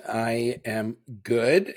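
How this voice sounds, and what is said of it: Hoarse voice. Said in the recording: “As you can hear, I'm still a little bit hoarse. I've been fighting this horrible cold”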